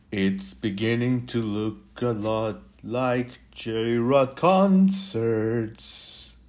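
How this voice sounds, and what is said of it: Deep, old-fashioned crooning voice. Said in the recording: “That was my deep voice, like 1950s or earlier kind of Christmas jam.”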